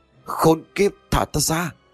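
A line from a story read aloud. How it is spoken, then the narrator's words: Screaming. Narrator (Vietnamese): Quyết gào thét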